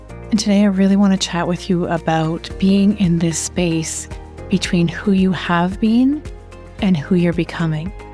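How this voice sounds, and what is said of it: Slightly sick, under-the-weather voice. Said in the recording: “You can hear in my voice that I am a little bit under the weather”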